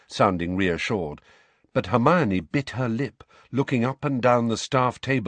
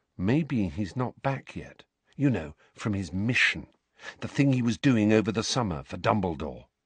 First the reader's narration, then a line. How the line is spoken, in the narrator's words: Harry said very quietly, so that Neville, Parvati and Lavender could not hear